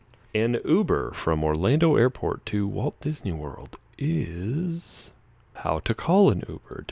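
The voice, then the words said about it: Mock FM radio announcer voice. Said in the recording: “I'm using my FM radio voice”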